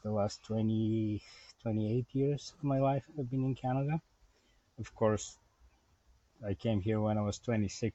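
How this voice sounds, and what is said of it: Bulgarian accent. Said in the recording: “I was born in Bulgaria, as you can probably hear from my accent ... the accent will never go away. It's always there.”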